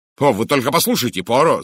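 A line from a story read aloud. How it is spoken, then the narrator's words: Shout. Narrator (Russian): закричал я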